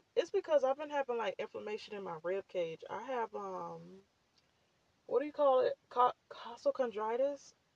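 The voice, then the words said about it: Scratchy, breathless voice. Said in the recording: “My voice is all scratchy right now... If I sound like I'm out of breath”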